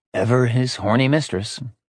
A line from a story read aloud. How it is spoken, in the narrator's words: he sighed